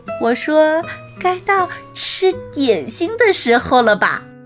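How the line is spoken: Grandfather, laughing. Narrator (Chinese): 爷爷他笑着说

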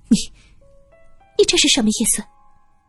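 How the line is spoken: Nervous, trembling voice. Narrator (Chinese): 林淑宁明显的紧张起来，声音微微的发颤

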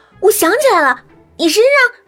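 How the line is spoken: Excited shout. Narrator (Chinese): 我刚恍然大悟，忙激动的喊

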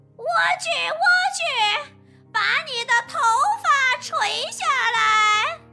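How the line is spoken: Shouting upward. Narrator (Chinese): 冲着塔顶大喊

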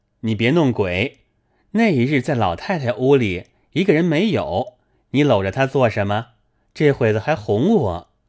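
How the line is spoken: Laughing. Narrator (Chinese): 宝玉笑道

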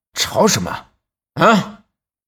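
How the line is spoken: Angry man scolding. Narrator (Chinese): 中年汉子，他一出来就怒气冲冲的，正要喝骂

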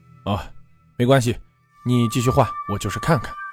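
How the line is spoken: Nervous, anxious. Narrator (Chinese): 肖慎吾 有些诚惶诚恐地说道

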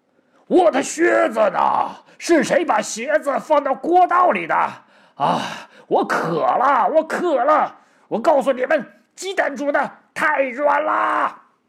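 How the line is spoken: Loud yelling. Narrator (Chinese): 大吼大叫

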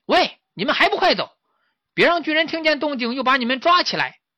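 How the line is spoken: Shouting. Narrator (Chinese): 石猴 朝他们喊

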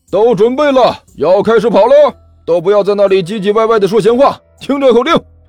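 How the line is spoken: Loud shout. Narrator (Chinese): 前面的舞间大声喊道

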